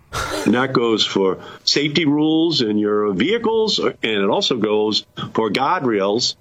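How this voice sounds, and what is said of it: Regional accent, guard sounds like god. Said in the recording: “It's the accent... I thought he said God rails for a second... no, he's saying guard.”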